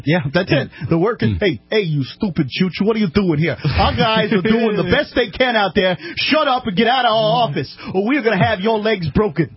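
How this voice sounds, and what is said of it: Put-on New York accent. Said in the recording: “a pretty good New Yorker”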